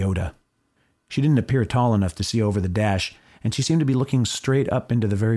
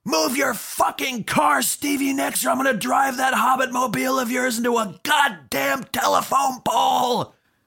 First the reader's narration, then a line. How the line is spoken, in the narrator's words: I screamed that, really